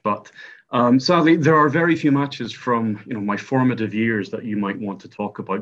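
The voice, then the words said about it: Northern Irish accent. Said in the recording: “as you can probably tell from my accent, I am Northern Irish”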